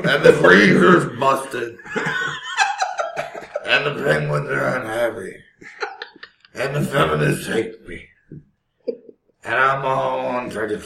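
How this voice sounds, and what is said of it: Gruff, mumbling impression of a singer. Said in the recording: “I think I sounded more like Mumbling Joe. That was the worst Tom Waits impression ever. ... You can see where you're going with it, but it kind of kept sliding further into parody. ... I think it went a little gruff with it”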